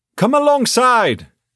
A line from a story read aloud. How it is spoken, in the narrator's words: exclaimed Will